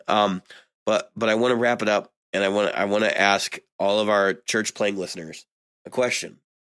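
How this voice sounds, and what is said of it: Strained, failing voice. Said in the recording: “I am losing my voice.”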